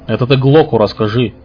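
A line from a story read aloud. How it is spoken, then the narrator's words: Snapping retort. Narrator (Russian): огрызнулся первый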